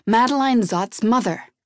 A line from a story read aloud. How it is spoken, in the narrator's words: she barked back